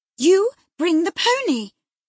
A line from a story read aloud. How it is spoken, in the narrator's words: exclaimed